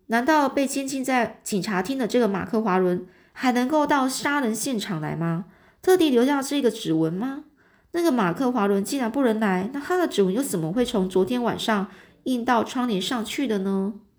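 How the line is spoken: Loud laughter. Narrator (Chinese): 福摩斯就在那大笑说

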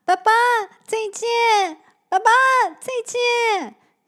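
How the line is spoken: Loud calling. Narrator (Chinese): 小光大声地叫着

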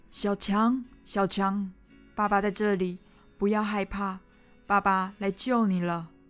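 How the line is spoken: Determined shouting while digging. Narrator (Chinese): 他坚定的用手刨着土和石头，边刨边喊着

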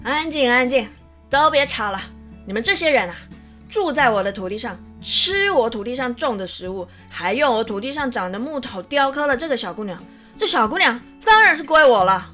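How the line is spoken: Loud, scheming. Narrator (Chinese): 国王……不禁起了坏心眼，大声的对他们说

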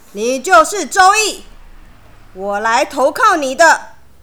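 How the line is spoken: Loud. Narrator (Chinese): 他大声的说

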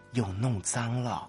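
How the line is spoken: Low voice. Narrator (Chinese): 低声说

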